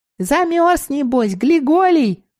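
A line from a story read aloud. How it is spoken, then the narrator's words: Squeaky. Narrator (Russian): пискнула Мила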